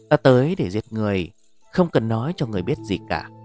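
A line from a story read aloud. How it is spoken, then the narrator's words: Cold. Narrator (Vietnamese): hắn nói với một giọng điệu lạnh lùng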